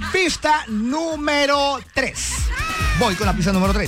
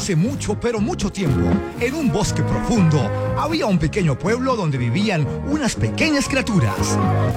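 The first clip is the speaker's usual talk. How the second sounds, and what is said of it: Storybook narrator voice. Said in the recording (Spanish): “Voy a tratar de colocar voz de narrador.”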